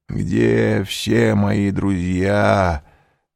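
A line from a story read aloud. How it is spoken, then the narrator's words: Mutter. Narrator (Russian): пробормотал он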